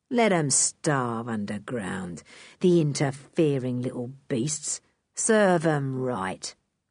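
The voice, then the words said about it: Cruel, menacing character voice. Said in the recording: “in a cruel voice”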